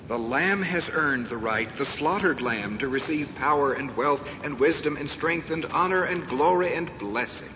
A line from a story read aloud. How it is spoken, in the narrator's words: sing loudly